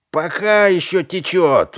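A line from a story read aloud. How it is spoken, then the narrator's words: Shout. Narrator (Russian): выкрикнул кто-то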